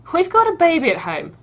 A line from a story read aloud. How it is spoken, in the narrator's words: Sharp laughs